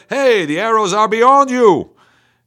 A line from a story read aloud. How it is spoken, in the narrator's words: Jonathan called out to the boy